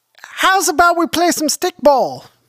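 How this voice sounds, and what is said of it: Put-on upstate New York accent. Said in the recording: “I don't know what accent that was. ... It's upstate. Maybe it's upstate. ... It's a Utica accent.”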